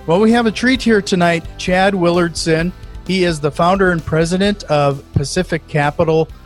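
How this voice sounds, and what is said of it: North Dakota accent. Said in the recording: “I'm near Fargo, North Dakota ... you might even hear it in my accent”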